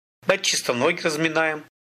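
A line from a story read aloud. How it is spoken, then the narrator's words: Plain. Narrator (Russian): ответил я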